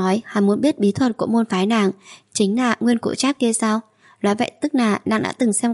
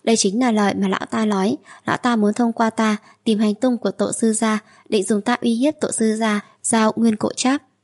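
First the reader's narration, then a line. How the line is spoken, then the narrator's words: Sighing. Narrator (Vietnamese): thở dài nói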